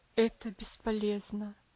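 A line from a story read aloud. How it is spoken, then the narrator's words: Sad sigh. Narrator (Russian): вздохнул доктор, печально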